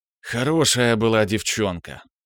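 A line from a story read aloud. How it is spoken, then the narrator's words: Sigh. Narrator (Russian): вздохнул Киврин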